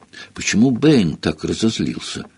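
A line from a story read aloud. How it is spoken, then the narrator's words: Whispering. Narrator (Russian): шепнул он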